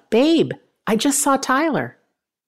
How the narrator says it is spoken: Tony yelled out

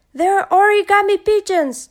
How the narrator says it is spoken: shouted Anansi

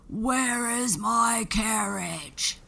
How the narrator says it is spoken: the giant would roar

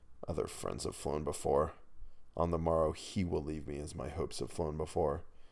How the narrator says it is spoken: I scarcely more than muttered

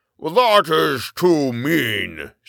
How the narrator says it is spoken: shouted the giant

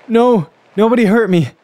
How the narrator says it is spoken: panted

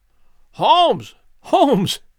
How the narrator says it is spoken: I cried

